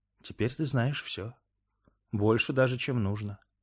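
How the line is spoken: Whispered addition. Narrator (Russian): шепотом добавила Вера

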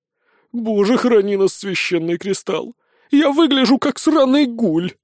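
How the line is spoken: Breathed out. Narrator (Russian): выдохнул штурмовик

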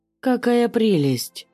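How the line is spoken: Exclaiming, male voice. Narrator (Russian): воскликнул мужским голосом

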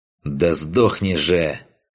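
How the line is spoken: Hissed through teeth. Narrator (Russian): сквозь зубы процедила Ваеса

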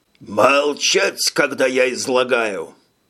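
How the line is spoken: Growling. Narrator (Russian): прорычал Арикис

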